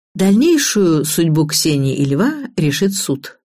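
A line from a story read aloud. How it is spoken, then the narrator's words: Plain. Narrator (Russian): сказал Иван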